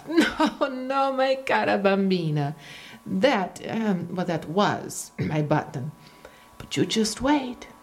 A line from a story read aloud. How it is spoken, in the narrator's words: Luigi laughed